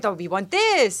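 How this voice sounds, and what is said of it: Put-on French accent. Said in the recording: “the French saw it ... I did an accent there”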